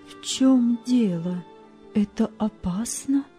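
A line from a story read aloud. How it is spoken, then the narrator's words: Plain. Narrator (Russian): спросила мать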